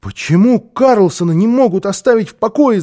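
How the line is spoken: Shouting. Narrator (Russian): закричал он

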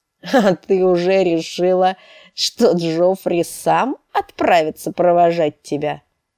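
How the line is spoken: Laughing loudly. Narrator (Russian): Он расхохотался

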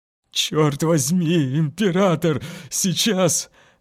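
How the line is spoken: Frightened whimpering whine. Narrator (Russian): Захныкал Бучер, слишком боясь повернуться спиной

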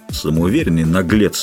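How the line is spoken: Gruff grumble. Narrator (Russian): буркнул незнакомец

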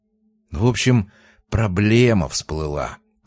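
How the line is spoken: Low whisper. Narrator (Russian): прошептал Тихонов, понизив голос до шепота

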